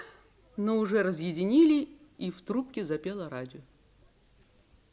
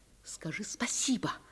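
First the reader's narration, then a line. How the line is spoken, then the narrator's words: Mother's dramatic whisper. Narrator (Russian): прошептала мама драматическим шепотом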